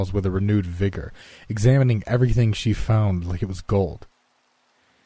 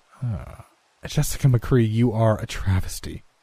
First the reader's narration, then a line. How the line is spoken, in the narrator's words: she said with such imperiousness